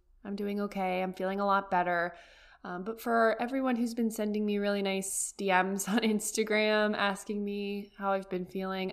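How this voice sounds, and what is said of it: Slightly different, unwell-sounding voice. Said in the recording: “I'm still on the rise from being sick. So if my voice sounds a little bit different”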